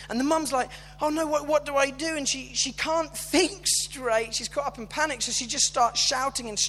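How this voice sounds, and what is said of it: Usual voice. Nothing is said of it.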